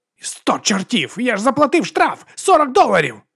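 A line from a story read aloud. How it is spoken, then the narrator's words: Shriek. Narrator (Ukrainian): заверещав Гантер Робертсон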